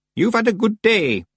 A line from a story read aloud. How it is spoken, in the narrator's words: said Miss Treason in a thin, cracked voice